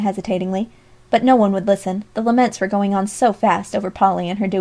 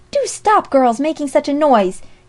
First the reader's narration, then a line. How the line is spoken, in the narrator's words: she added impatiently